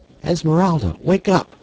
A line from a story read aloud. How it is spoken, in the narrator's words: She cried